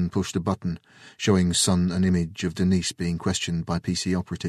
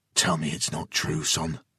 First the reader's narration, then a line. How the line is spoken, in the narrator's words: Jason pled quietly